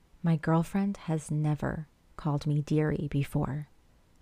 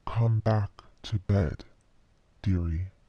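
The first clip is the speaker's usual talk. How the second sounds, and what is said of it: Unnaturally deep voice. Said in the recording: “in a too deep voice”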